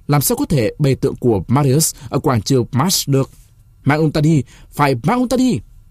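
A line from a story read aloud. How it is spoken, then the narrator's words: Shouted in unison. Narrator (Vietnamese): Mấy người thuộc phái Sulla đồng thanh hét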